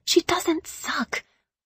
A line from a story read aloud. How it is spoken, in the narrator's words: I whisper shouted